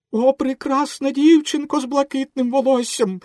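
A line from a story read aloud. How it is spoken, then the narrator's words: Exclamation. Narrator (Ukrainian): вигукнув Пінокіо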